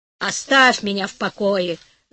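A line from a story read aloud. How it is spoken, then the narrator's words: Grumbling husband. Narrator (Russian): заворчал муж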